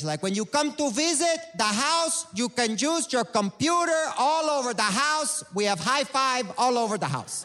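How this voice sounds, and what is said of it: Imitated accent of Cuban mother. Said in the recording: “I do have a wonderful Cuban family ... She has this accent that people really enjoy.”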